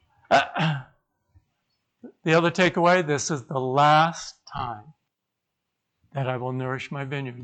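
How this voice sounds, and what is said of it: Quiet, strained, fading voice. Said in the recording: “Speak up ... I'm losing my voice too”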